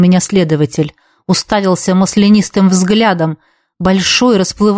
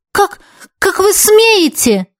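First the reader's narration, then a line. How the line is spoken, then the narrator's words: Exclaimed in reply. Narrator (Russian): воскликнула я в ответ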